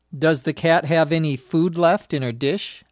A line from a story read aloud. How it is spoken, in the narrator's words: I asked